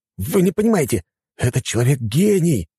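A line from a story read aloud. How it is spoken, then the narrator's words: Exclaimed. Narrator (Russian): воскликнул другой советник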